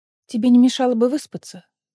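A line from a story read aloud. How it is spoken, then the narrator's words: Plain. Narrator (Russian): сказала Лиссандра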